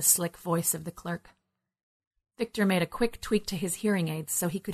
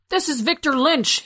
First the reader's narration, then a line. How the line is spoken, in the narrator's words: he yelled